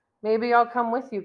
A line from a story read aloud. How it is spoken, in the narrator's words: Gunwar says